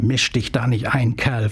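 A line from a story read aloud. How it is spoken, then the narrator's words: Hissing. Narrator (German): fauchte sie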